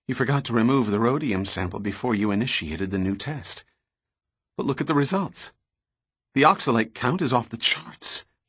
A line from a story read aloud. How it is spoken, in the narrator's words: he said quietly